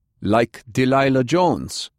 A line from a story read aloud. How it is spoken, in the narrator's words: Heinrich spat